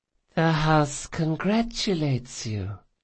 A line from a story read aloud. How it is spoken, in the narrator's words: she said in her eerie, lisping voice